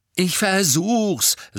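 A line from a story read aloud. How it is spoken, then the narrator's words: Angry. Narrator (German): sagte Harry zornig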